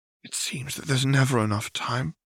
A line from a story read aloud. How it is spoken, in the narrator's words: sighed